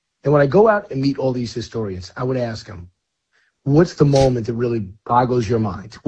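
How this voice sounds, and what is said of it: Hoarse, strained voice. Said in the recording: “losing your voice. ... I'm a little hoarse,”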